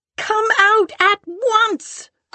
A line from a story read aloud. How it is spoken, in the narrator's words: cried Mrs